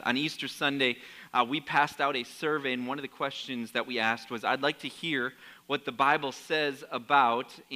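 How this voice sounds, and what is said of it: Troubled voice that may cut out. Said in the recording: “My voice is giving me a lot of problems this morning, so if I cut out”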